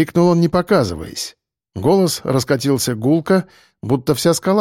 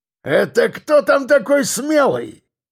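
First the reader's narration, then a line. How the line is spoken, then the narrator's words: Roaring. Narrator (Russian): проревел кирпич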